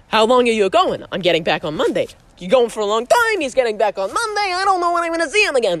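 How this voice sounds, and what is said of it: Imitates a sitcom character's voice. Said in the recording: “I think this is a good George impression. I think it started out better than it ended up.”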